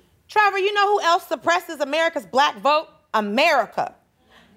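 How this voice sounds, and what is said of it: Usual voice. Nothing is said of it.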